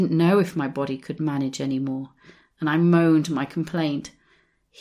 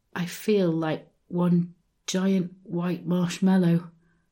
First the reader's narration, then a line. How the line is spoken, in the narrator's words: I mumbled